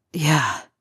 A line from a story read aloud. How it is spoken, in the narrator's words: he sighs afterward